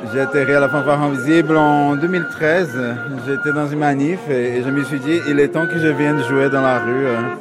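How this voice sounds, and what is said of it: Slight Brazilian accent. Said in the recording (French): “Vous avez un petit accent brésilien.”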